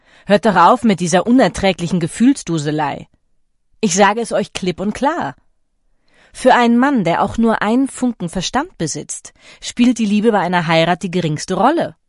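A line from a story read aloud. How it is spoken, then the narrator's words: Nobleman exclaiming contemptuously. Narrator (German): rief der Marquis verächtlich aus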